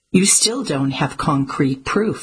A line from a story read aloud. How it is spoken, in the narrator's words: said Lillian